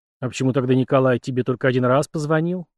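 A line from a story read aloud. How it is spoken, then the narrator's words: Grumbling. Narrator (Russian): буркнул Ренье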